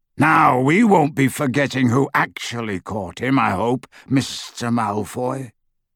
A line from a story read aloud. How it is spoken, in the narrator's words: said Greyback menacingly